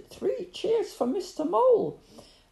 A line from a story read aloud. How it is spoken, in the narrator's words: someone shouted